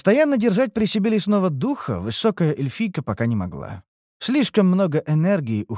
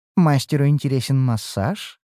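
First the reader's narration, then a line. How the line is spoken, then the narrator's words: Flirtatious purr. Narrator (Russian): мурлыкнула мечтающая стать фавориткой водница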